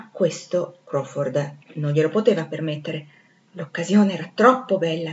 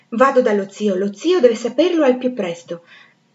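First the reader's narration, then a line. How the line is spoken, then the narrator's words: Vehement exclamation. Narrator (Italian): esclamando con impeto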